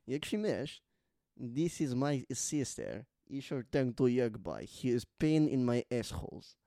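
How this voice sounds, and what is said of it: Borat impression, Kazakh-style accent. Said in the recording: “Borat. ... It's the best impression of all time. ... It's merging into Gru for me. ... I'm hearing Gru.”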